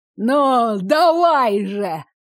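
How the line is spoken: Hoarse laughing. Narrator (Russian): хрипло рассмеялся Чудаков

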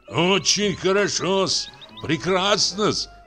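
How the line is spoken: Shouted. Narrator (Russian): крикнул уже Отлетаев

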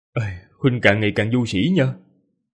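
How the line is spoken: Sighing. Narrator (Vietnamese): Ninh Khuyết thở dài nói

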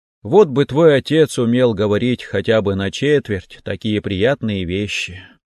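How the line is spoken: Sighing mother. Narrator (Russian): вздохнула мама

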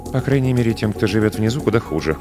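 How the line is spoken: Mumbling. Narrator (Russian): пробормотала она

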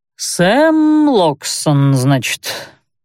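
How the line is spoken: Slow drawl, middle-aged man. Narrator (Russian): протянул, растягивая слова, 50-летний мужичок с усами

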